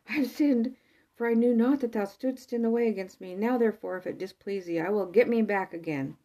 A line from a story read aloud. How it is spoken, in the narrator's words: Balaam exclaimed in terror